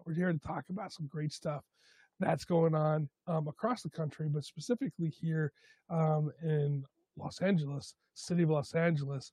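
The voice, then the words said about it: Hoarse, strained voice. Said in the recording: “my voice is shot today ... Still trying to get over this cold ... my voice is shot either way”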